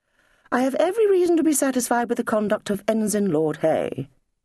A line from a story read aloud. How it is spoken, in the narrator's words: said Hay in a prim voice